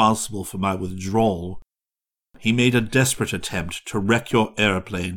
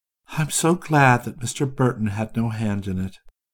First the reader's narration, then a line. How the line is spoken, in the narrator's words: Orissa said gently